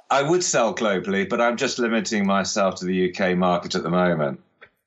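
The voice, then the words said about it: Dorset English accent. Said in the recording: “where Dorset is in the UK, as you can probably tell from ... accent.”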